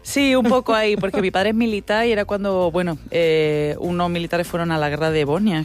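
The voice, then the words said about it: Andalusian Spanish accent. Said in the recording (Catalan): “té un aquest accent andalús”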